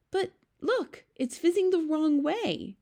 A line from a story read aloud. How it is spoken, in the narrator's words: Sophie cried